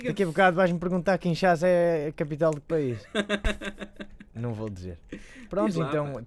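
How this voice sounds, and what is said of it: Northern Portuguese accent. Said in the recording (Portuguese): “gozar com o meu sotaque nortenho”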